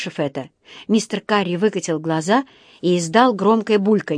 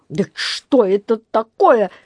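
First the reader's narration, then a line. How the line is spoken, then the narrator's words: Barking sharply. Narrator (Russian): рявкнул он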